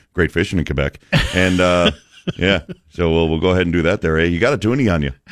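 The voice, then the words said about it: Put-on Canadian accent. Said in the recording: “I'm sure you could go off into a Canadian accent any second.”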